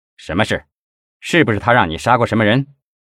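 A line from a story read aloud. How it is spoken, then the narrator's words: Stern questioning. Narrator (Chinese): 测谎专家声音严厉的问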